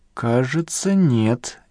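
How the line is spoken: Uncertain. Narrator (Russian): неуверенно проговорил Раймонд Генрихович

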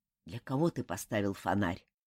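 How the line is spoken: Quiet question. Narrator (Russian): негромко спросил Хару

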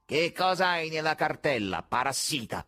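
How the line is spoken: Piercing cat-like yell. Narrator (Italian): urlò con voce penetrante quello che somigliava a un gatto

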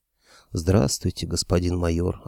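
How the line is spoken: Horse, plain. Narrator (Russian): ответил конь

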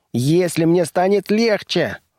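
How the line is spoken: Indignant little monster's yell. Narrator (Russian): завопил монстренок, пыхтя от негодования

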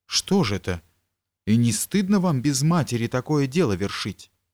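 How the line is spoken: Exclamation. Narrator (Russian): она воскликнула

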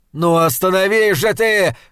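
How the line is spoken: Shouting. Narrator (Russian): кричал он

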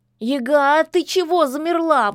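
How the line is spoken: Cat's wail. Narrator (Russian): взвыл кот

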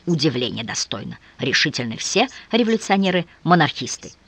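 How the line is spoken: Grumbled. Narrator (Russian): Бенкендорф проворчал

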